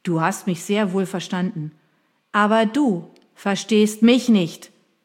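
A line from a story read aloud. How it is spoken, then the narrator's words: Shouting. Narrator (German): brüllte ich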